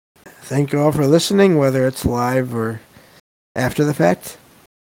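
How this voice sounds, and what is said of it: Strained, worn-out voice. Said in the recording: “I can feel my voice is wanting to give out on me a little bit here”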